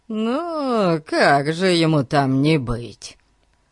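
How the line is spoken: Gloomy mutter. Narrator (Russian): хмуро пробурчал Гун

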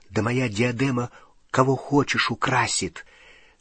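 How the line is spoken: Loud whisper. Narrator (Russian): Звучным шепотом сообщила тетя Мюриэль

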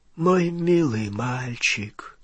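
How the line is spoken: Weak voice. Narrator (Russian): слабым голосом отвечал Олливандер

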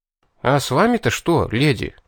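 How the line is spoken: Bewildered question. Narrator (Russian): растерянно поинтересовался я

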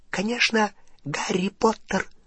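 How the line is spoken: Whisper. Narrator (Russian): прошептал Добби

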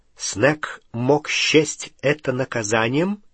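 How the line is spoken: Quiet. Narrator (Russian): негромко сказал Гарри

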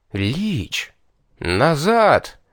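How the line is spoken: Breathless, coming to senses. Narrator (Russian): опомнившись, выдохнул

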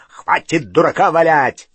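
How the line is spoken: Barking. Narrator (Russian): рявкнул Грюм

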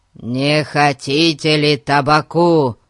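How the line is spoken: Roared. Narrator (Russian): проревел Гун

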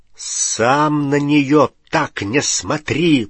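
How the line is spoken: Growling. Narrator (Russian): прорычал Рон

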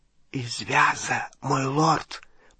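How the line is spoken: Whisper. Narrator (Russian): прошептал Малфой

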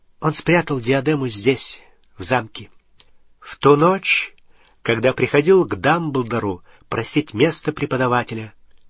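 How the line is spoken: Plain. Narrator (Russian): сказал Гарри

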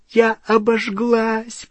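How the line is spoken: Moaning. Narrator (Russian): простонала Гермиона

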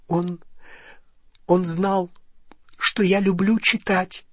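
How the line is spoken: Choked voice. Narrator (Russian): сдавленным голосом ответила Гермиона

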